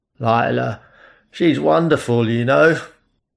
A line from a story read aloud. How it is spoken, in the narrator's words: he slurred